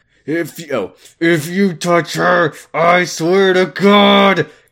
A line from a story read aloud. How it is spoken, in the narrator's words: Kyle said angrily through his teeth